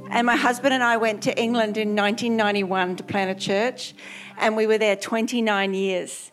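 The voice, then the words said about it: Australian accent, some British influence. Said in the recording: “If you can't work out my accent, I'm Australian ... there's certain things I still say, like, that's beautiful, which sounds very British”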